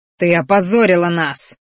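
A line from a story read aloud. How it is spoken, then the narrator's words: Roaring. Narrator (Russian): взревел боевик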